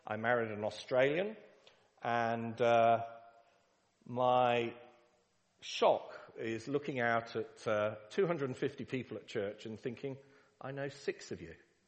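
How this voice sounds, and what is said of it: English (Pommy) accent. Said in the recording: “Yes, it's a Pommy accent.”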